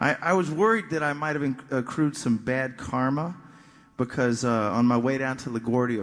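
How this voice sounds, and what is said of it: Usual voice. Nothing is said of it.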